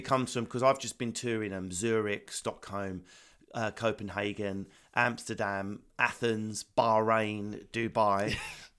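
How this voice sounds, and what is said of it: Essex English accent. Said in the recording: “my accent's so close to the Australian accent ... an Essex accent”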